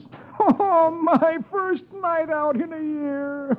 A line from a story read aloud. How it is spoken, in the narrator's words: Dagwood groans